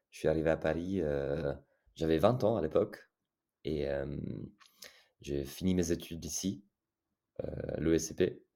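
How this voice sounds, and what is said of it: Italian accent speaking French. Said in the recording (French): “vous l'entendrez peut-être, j'ai un accent italien, effectivement. je suis italien.”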